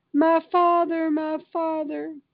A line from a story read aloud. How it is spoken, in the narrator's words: He cried